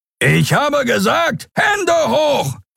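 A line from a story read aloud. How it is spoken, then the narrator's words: Roar. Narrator (German): brüllte der Skria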